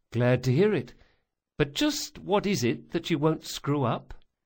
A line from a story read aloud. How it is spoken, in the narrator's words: Bug sighed